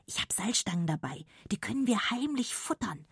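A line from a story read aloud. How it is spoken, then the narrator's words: Whispering in ear. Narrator (German): flüstert Arne Lilly ins Ohr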